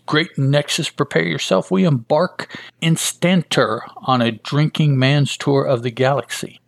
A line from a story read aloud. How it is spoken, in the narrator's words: Judah, who screams out